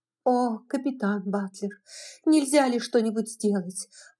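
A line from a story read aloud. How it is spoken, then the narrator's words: Pleading. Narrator (Russian): взмолилась Мелани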